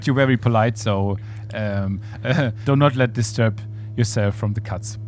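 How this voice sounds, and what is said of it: German accent in English. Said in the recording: “we have a bad German accent”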